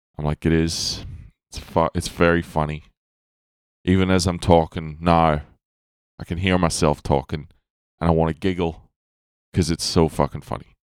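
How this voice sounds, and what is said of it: Mixed Northern Irish-Australian accent. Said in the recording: “I was born in Northern Ireland, but I've lived in Australia for 25 years ... So my accent's fucked ... It's a funny accent”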